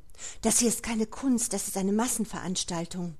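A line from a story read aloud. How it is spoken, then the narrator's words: Quiet murmur. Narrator (German): raunte leise zu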